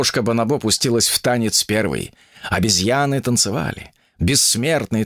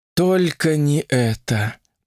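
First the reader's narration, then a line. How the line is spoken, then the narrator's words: Moan. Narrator (Russian): простонала Ольга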